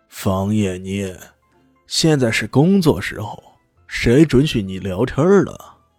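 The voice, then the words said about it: Sneering, sarcastic character voice. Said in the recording (Chinese): “一个阴阳怪气的声音说道”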